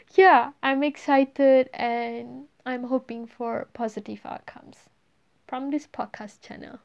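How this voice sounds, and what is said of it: Non-native English accent. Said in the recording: “I am not a native speaker of English ... my messed up accent”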